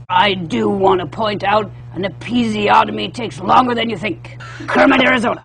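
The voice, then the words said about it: Bad Larry King impression. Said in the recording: “do a bad Larry King impression”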